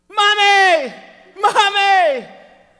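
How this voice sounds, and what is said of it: Yelling like a child. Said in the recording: “Why are you yelling for Mom?”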